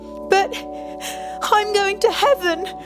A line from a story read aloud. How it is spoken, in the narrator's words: had sobbed